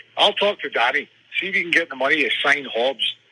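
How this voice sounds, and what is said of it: Put-on Scottish accent. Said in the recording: “I'll translate for those who don't understand the Scottish accent. It's the fake Josh Kerr”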